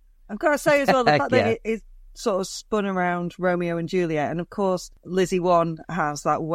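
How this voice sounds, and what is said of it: Usual voice. Nothing is said of it.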